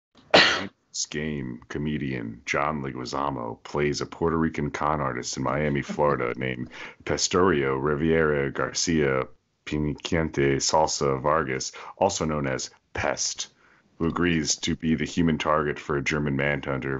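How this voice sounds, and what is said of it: Dramatic plot-narration voice. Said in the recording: “in my plot voice”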